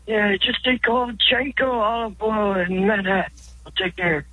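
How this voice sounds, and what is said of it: Bad impression voice. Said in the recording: “That was bad. Terrible impression.”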